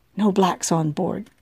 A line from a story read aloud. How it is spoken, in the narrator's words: the officer whispered